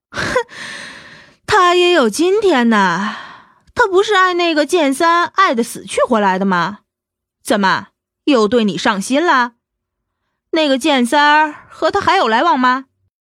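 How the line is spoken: Sneering. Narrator (Chinese): 青莲冷笑道

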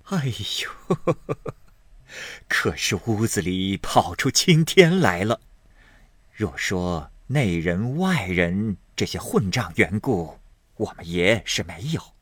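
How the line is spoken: Laughing, murmuring a prayer. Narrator (Chinese): 赵嬷嬷也笑个不住，又念佛道

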